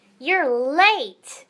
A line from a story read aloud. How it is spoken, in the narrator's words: he hollered